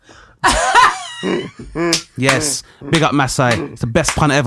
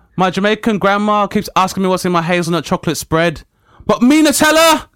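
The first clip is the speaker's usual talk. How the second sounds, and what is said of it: Attempted Brummie accent. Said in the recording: “he's got a Brummie accent. I'm going to give this attempt”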